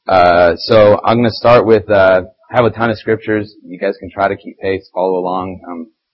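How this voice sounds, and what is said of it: Hoarse, failing voice. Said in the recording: “As you can hear, my voice is even going ... I might sound a little funny.”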